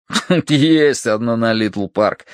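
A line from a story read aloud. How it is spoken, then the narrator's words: After laughing, speaking. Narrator (Russian): отсмеявшись, сказал Долговязый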